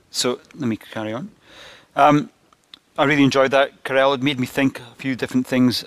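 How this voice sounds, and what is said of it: Scottish Glasgow accent. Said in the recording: “I'm from Glasgow and you have to tune into the Scottish accent a little bit.”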